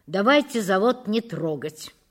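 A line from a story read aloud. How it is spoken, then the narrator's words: Cold. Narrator (Russian): произнес холодно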